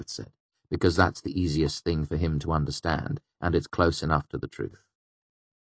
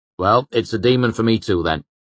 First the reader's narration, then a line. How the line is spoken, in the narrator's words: Chronicler said sharply